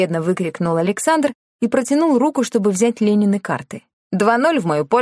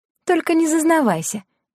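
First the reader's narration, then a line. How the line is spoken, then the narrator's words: Giggling. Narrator (Russian): хихикнула она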